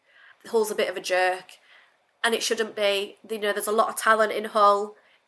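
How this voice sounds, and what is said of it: Northern English accent. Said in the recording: “You're clearly from the north. You can't hide it.”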